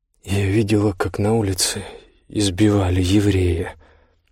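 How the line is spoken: Pained mutter. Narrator (Russian): пробормотала она наконец, и воспоминание о несчастном Яноше отозвалось в ней острой болью

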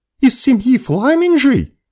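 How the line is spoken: Frightened question. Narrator (Russian): Испуганно уточнила мышанка

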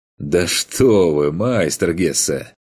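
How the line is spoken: Laughing. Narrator (Russian): Даже засмеялся Каспар

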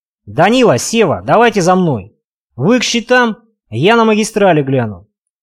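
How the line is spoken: Shouted. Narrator (Russian): крикнул Дугин

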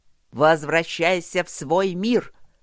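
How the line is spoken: Growling mocking shout. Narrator (Russian): рычащий и насмешливо крикнул ему один из воинов секирой

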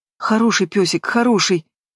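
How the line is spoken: Trembling voice. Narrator (Russian): говорю дрожащим голосом

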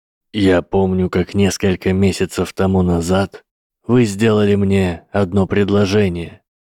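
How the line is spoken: Plain. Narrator (Russian): сказал профессор защиты

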